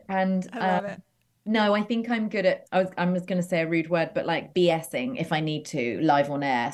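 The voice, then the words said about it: English accent. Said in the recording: “being English really helps out there ... oh, I love your accent”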